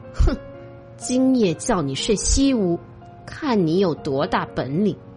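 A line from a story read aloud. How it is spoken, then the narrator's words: Furious, through gritted teeth. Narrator (Chinese): 他气坏了，咬牙切齿的说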